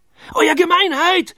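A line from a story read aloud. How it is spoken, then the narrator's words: Excited shout. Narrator (German): schrie er aufgeregt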